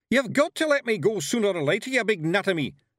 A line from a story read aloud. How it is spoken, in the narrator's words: yelled Rob Anybody